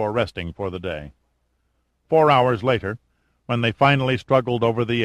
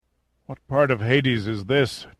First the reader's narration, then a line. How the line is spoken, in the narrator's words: Giordino rasped